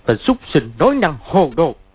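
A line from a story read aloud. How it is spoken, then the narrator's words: Shouting. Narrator (Vietnamese): quát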